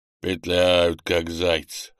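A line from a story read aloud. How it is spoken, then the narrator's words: Chuckling. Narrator (Russian): хохотнул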